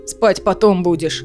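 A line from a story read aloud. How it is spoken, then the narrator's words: Growling. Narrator (Russian): Лиссандра тоже зарычала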